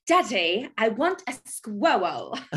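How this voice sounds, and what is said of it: Impression of a Willy Wonka character. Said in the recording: “Give us your best impression. ... From Willy Wonka.”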